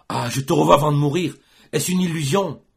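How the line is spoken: Exclaimed. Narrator (French): s'écria-t-il

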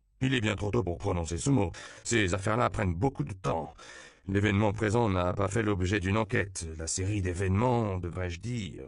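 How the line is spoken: Earnest, as if to himself. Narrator (French): exposa le père Octavio d'un ton pénétré, comme s'il se parlait à lui-même ou repassait dans sa tête son rapport préliminaire à l'évêque

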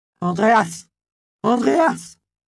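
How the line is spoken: Woman crying out. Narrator (French): criait la catin

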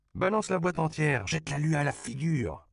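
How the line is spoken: Shouting. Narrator (French): cria Lupe

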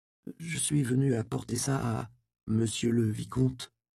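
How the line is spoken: Awkward stammering. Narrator (French): balbutia-t-elle maladroitement

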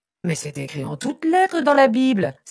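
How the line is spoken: Exclaimed. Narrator (French): s'écrie José

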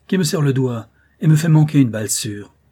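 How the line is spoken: Exclaimed. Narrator (French): s'écria-t-il

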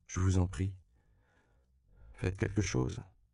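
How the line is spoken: Desperate pleading. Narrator (French): implora-t-il en désespoir de cause

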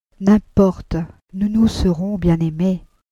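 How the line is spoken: Sighing. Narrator (French): Elle soupira

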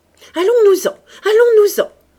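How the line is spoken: Shouting. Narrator (French): cria Clotilde

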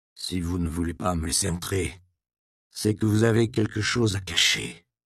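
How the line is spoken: Provost grumbling. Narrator (French): grogna le prévôt

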